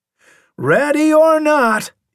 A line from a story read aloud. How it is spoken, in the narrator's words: he hollered